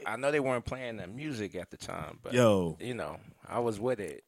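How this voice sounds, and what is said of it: Southern American accent. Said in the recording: “If you can tell by his accent, he's probably from South Alabama.”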